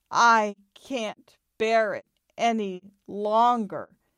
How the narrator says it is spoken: he drawled between groans, repeating even more slowly

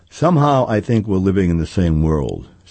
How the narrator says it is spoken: said Sophie

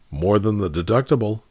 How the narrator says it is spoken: Casey asked quietly

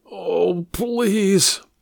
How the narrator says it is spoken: he said with a groan

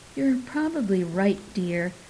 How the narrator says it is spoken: sighed Mom

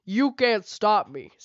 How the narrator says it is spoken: Scarygon roared

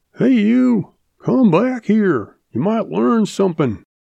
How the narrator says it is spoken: Old uncle hollers after him

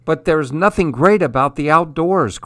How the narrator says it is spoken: cried Bob

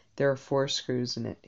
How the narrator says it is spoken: he said

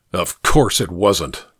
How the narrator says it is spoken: Jack snorted

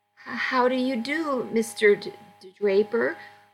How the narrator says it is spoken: I quavered

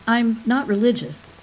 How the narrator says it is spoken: said Lekish

